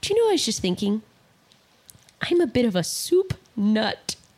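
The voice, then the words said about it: British mother impression. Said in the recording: “my parents are British, you know, like the accent was in my house ... he does an impression of his mom”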